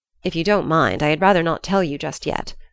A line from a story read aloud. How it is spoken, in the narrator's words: Ernest said